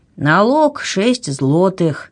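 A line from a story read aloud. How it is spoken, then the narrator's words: Sleepy announcement. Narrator (Russian): сонно объявил он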